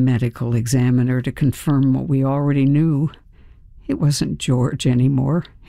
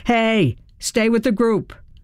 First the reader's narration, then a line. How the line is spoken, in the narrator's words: a cop yelled